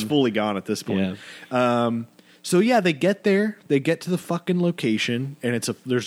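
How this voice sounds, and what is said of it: Usual voice. Nothing is said of it.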